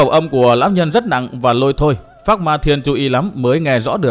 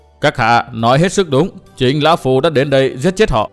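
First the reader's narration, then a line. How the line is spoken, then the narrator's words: Slow, with cold laugh. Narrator (Vietnamese): Phác Ma Thiên cười nhạt, chậm rãi nói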